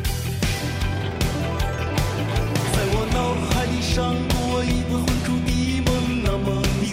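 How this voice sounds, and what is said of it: Singing with a Shandong Zibo accent. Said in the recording (Chinese): “山东话都出来了吗？ ... 你怎么会有山东口音？ ... 为什么一句淄博话来了？”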